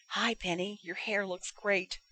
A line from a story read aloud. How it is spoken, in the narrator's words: Elizabeth peeked through the opening with a cheeky grin on her face and whispered